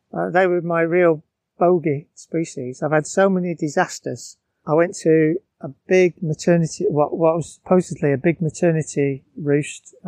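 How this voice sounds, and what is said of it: Northern English Bolton accent. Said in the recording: “my accent. I'm from Bolton”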